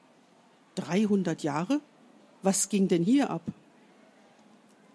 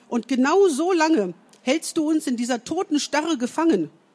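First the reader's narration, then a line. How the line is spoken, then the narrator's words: Called out. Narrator (German): rief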